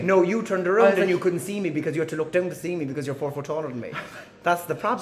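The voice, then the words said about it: Cork Irish accent. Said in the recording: “the dirty Cork accent”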